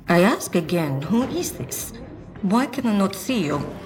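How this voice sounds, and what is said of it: Fictional Valenish accent. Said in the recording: “It says in this Valenish accent”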